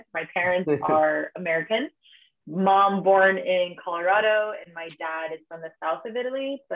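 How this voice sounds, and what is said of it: American accent. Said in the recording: “my accent is very Americana accent.”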